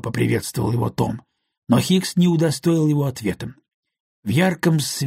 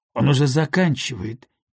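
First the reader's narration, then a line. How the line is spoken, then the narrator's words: Soft. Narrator (Russian): мягко проговорил Том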